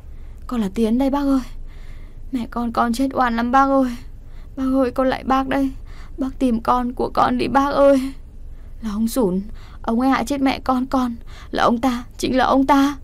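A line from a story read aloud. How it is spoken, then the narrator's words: Tearful wailing plea. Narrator (Vietnamese): chị Vũ khóc lóc rưng rằng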